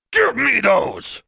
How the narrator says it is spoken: he said in the same loud, outraged voice

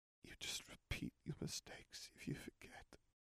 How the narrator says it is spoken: he whispered

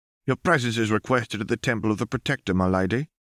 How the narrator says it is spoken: the guard said stiffly

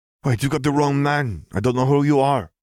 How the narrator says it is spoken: wheezed in his native tongue

